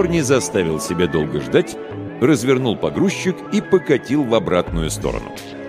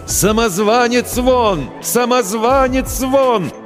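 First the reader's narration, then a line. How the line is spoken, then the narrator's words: Crowd chanting shouts. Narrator (Russian): толпа кричала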